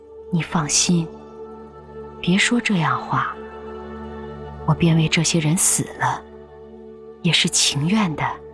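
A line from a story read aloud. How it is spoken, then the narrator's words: Long sigh. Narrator (Chinese): 宝玉听说便长叹一声道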